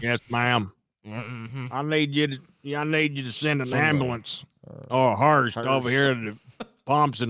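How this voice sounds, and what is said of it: Sling Blade character voice impression. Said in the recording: “Sling Blade ... do the voice”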